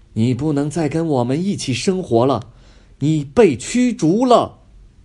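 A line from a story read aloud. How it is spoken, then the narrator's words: Loud scolding. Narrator (Chinese): 女皇 大声训斥贝贝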